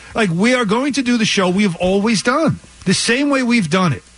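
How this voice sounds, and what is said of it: New York accent. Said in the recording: “my New York accent. That's not going anywhere.”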